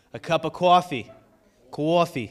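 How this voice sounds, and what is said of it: Attempted New Jersey accent. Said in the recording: “I'm trying the Jersey accent. Did I do it okay? No, it's not right.”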